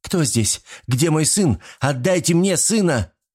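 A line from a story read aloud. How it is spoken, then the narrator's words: Screaming. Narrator (Russian): закричала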